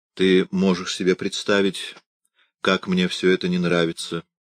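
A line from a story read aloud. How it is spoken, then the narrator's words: Continuing with a sigh. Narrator (Russian): продолжал Иоахим и снова вздохнул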